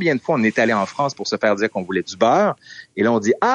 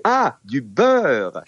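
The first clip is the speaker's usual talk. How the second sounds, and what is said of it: Condescending France-French accent. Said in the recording (French): “avec un accent un peu condescendant”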